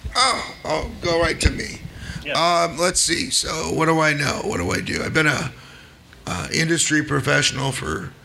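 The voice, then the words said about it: Damaged, strained voice. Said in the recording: “apologize for my voice... I somehow lost my throat like Tuesday night”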